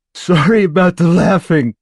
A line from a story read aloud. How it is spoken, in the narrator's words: Morris says, laughing harder